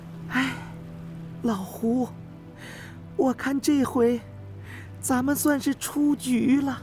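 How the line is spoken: Soft sigh. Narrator (Chinese): 不禁轻叹了一声

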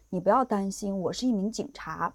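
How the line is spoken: Low voice. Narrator (Chinese): 这个男人就低声的告诉她说

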